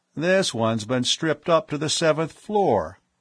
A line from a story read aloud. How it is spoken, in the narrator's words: Latimer exclaimed